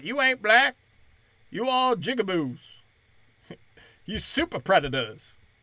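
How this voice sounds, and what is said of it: Put-on Black American voice. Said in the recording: “giving him a black voice. I mean, I can't do a Biden impression.”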